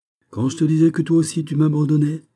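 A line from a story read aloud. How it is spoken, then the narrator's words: King exclaiming. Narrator (French): s'écria le roi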